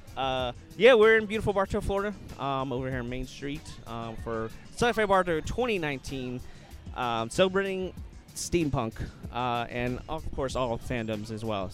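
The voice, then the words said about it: Deepened, slightly cracking tired voice. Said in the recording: “My voice is actually getting deeper as the day, because I mean, we've been talking so much. ... I can hear my voice cracking a little bit.”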